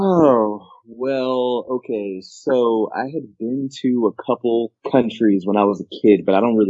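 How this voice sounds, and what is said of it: Usual voice. Nothing is said of it.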